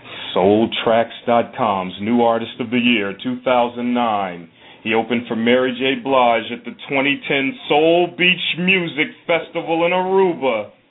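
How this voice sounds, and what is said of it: Announcer-style introduction voice. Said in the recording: “do my introduction voice”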